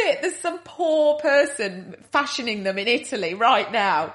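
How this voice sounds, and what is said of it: Usual voice. Nothing is said of it.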